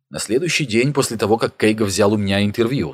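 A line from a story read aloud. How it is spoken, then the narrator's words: Plain. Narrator (Russian): сказал Нухаев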